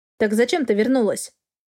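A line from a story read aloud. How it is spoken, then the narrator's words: Plain. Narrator (Russian): снова спросил мужчина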